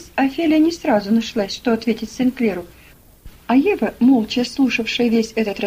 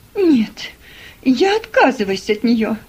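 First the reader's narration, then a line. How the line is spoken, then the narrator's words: Exclaiming. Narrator (Russian): воскликнула мисс Офелия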